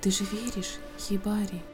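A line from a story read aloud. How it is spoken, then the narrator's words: Whispered. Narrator (Russian): Прошептал Цуна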